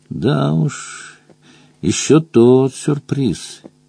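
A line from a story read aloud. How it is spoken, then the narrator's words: Soft growl. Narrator (Russian): тихонько прорычал Мадж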